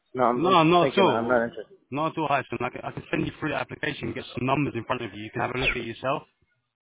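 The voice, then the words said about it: British accent. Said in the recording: “you got a British accent ... You've got a British accent.”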